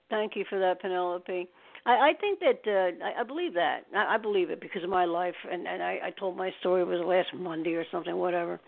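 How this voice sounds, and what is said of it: Slightly choked, husky voice. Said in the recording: “I have a little frog in my throat”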